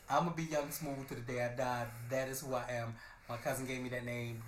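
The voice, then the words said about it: Hoarse, worn-out, congested voice. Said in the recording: “My voice is so gone ... my voice is shot ... I'm about to grow mucus and everything ... My voice is so jacked right now ... apologies for the sniffles”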